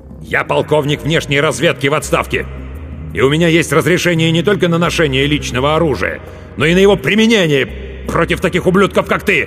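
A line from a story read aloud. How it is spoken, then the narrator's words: Loud barking shout. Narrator (Russian): громко рявкнул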